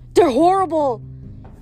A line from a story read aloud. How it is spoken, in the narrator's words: Rachel gasped